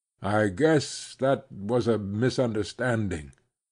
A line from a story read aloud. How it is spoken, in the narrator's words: he stammered